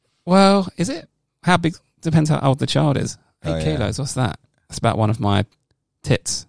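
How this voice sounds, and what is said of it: Usual voice. Nothing is said of it.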